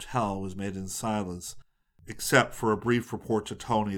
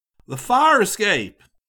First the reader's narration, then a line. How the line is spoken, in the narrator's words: Scotty yelled